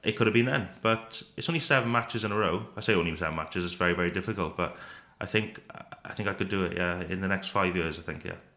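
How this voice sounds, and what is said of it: Welsh accent. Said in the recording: “I love having Welsh players on because I think you all sound great behind a microphone... I absolutely love the accent”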